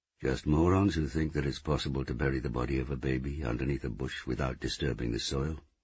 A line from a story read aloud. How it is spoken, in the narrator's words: he said